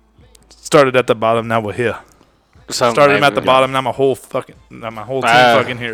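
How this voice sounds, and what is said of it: Rapping like a rapper. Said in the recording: “You sound like a rapper.”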